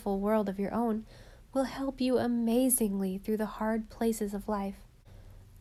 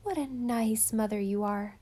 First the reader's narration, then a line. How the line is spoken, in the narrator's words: she sighed